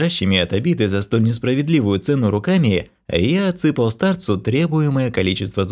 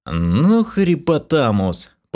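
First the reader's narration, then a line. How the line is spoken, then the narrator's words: Near-silent moan. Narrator (Russian): почти беззвучно простонал я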